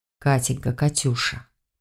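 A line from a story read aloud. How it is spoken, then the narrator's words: Close intimate whisper. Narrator (Russian): Прошептал, склонившись к шее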